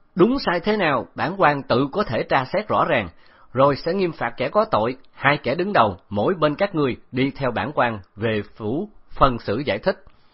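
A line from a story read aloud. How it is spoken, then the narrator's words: Loud shout. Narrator (Vietnamese): hét lớn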